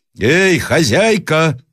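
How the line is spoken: Shouting again. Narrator (Russian): закричал опять проезжий

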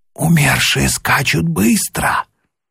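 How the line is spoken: Whispered. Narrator (Russian): Один из пассажиров шепнул другому

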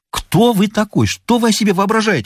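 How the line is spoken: Angry shouting. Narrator (Russian): закричал фотограф

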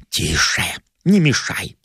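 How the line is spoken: Whispered. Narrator (Russian): прошептал я

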